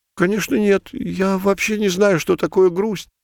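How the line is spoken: Forced cheer, frightened voice. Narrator (Russian): попытался непринужденно весело ответить кот, но от этого его голос зазвучал еще более испуганно

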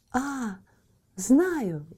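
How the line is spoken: Exclaiming. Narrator (Russian): воскликнула

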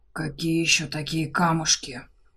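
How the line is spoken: Furious dragon hissing in ear. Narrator (Russian): Разъяренно прошипел дракон на маленькое волосатое ухо своего ушлого собеседника

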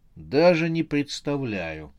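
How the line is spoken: Flat, uninterested seller's answer. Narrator (Russian): бесцветным голосом, лишенным всякой заинтересованности, ответил продавец

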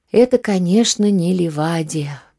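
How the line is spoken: Sad sigh. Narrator (Russian): вздохнул он с грустной улыбкой

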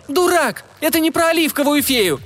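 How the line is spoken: Shriek. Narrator (Russian): завизжала Сани

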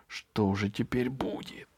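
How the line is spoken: Whisper. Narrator (Russian): прошептал Франц

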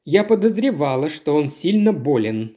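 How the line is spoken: Plain. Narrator (Russian): сказала

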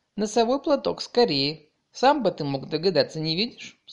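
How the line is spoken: Stern remark. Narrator (Russian): строго заметил Илья Ильич

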